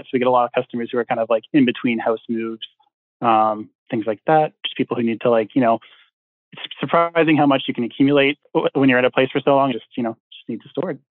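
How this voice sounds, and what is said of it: Canadian accent. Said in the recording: “Originally from Canada ... the accent of Canadian versus American ... It was a boot. You said it was a boot.”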